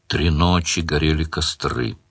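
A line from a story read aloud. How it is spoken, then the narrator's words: Muttering demon from behind. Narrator (Russian): бормотал за спиной радужный демон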